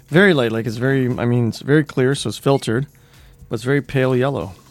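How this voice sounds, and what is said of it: Hoarse, strained, failing voice. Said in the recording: “I can't speak right now. I'm losing my voice.”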